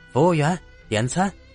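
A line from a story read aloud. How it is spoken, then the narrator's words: Shouting. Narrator (Chinese): 张二傻喊道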